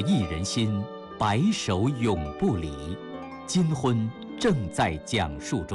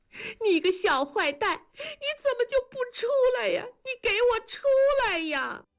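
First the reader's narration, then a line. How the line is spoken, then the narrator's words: Sudden loud wailing. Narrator (Chinese): 突然放声哭嚎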